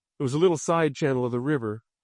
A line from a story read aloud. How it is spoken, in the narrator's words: Gary said